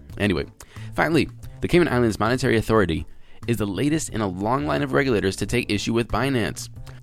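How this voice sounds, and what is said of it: Stuffy, congested voice. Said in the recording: “my allergies are killing me today. Can you guys hear that in my voice?”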